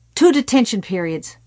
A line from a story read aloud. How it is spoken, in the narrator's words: Morton snapped